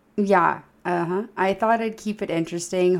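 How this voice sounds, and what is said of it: Hoarse, fading voice. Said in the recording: “I'm losing my voice ... why does ... sound like she's dying?”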